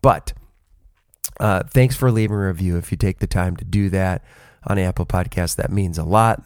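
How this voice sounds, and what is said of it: Unwell, rough-sounding voice. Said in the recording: “as you can tell from my voice, I don't sound all that great”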